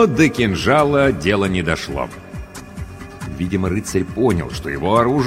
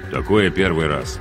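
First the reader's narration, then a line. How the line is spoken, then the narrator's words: Gruff mutter. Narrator (Russian): буркнул капитан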